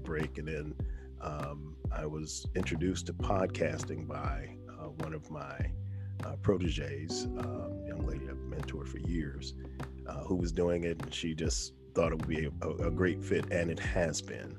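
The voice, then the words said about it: Excellent radio voice. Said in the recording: “you have an excellent radio voice”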